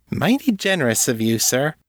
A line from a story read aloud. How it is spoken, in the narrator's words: Callie said sweetly